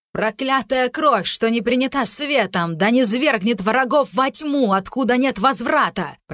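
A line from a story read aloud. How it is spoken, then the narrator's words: Shouting. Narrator (Russian): прокричала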